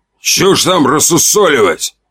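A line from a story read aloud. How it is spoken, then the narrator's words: Loud bark. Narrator (Russian): гаркнул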